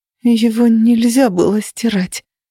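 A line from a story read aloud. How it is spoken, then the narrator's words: Breathy exhale. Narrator (Russian): выдохнула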